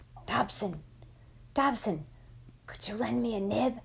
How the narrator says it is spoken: I put a hand in front of my mouth and whispered

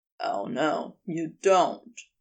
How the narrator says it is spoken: he growled

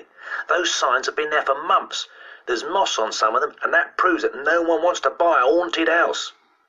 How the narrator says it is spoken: cried Christopher triumphantly

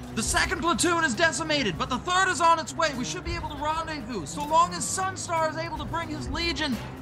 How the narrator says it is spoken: shouts back

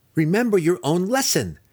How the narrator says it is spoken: Driz shouted

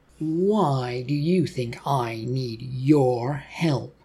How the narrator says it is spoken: Larry replied

